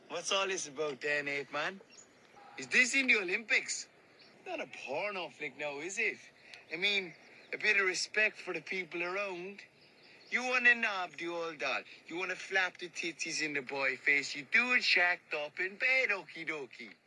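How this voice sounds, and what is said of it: Cork Irish accent. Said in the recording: “the Cillian Murphy Cork accent”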